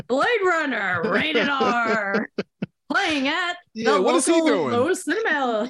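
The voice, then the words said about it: Movie phone announcer voice. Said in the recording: “can you imagine the credits being read in Movie Phone voice”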